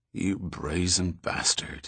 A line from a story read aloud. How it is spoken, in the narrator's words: he muttered